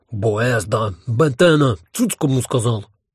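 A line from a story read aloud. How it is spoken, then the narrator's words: Growl in chorus. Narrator (Russian): хором прорычал Гальт Бетенбальд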